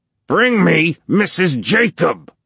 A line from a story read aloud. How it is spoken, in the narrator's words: Hobie screamed at him